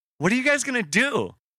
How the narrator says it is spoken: She asked excitedly

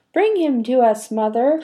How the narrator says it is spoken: cried one of the disgusting, drooling wretches

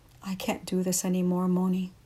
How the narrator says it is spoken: Alberto agonized, his voice cracking, his eyes filled with tears

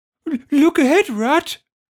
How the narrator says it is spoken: cried the mole suddenly

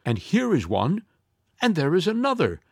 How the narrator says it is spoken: they all exclaimed

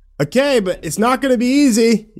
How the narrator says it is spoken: yelled Brian

